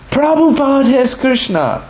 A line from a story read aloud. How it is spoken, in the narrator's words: She exclaimed